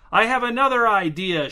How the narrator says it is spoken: shouted Marcel

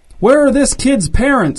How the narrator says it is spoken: shouted someone in the crowd

